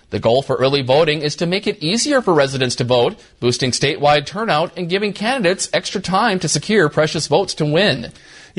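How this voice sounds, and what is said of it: Unmistakable Minnesotan accent, Canadian-sounding. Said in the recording (Dutch): “een televisieverslaggever van Minnesota Public Television met een onmiskenbaar Minnesotaans accent. ... Ze klinken een beetje als Canadezen.”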